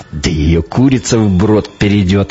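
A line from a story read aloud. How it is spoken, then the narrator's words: Snorting grunt. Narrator (Russian): хмыкнул Теркин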